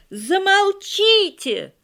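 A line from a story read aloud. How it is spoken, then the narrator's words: Loud bass shout. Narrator (Russian): на весь класс басом выкрикнул Тарас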